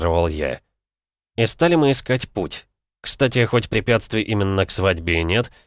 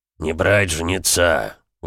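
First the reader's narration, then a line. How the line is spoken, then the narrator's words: Grumbling. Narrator (Russian): ворчал Бронзовый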